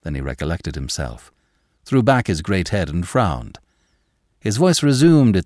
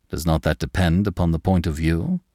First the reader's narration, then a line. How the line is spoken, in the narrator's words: quoth André Louis, but his tone was studiously conciliatory